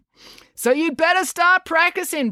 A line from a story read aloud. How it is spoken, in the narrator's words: Brad boomed